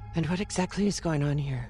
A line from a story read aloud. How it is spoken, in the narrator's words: she said in her husky voice